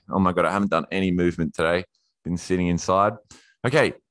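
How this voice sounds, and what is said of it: Out of breath, panting. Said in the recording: “I'm out of breath here.”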